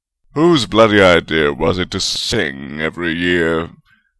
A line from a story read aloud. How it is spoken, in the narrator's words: Godric grumbled